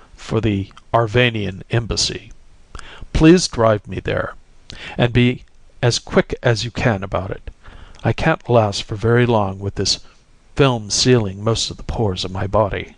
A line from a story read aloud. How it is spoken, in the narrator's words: there was a ringing resolution in the deep voice